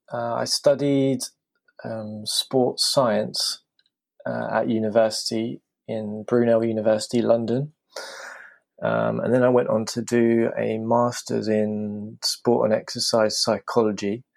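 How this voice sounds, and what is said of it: British accent. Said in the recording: “I'm from the UK, as you can probably tell from my accent.”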